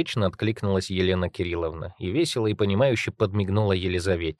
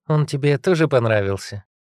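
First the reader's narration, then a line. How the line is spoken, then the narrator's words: Cheerful question. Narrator (Russian): весело поинтересовалась Елена Кирилловна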